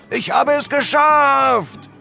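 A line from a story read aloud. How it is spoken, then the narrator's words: Bellow. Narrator (German): brüllte er und erwartete Beifall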